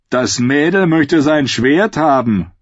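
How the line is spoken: Mocking voice. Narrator (German): höhnte eine Stimme

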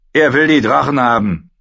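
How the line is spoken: Curt, gruff. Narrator (German): sagte Belvas schroff

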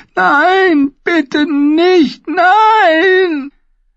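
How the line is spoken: Creature shrieking. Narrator (German): das schwarze Wesen kreischte

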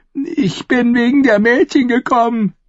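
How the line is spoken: Whining. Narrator (German): jammerte er

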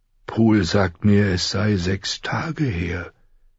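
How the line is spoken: Plain. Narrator (German): sagte Ned

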